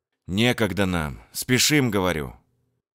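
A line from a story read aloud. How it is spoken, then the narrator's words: Sighing. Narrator (Russian): вздохнул Данил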